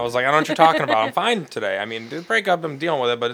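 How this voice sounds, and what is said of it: Usual voice. Nothing is said of it.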